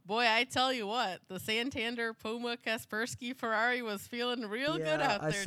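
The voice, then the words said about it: Deliberately bad put-on Southern accent. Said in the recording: “my really, really bad Southern accent there. I did my best.”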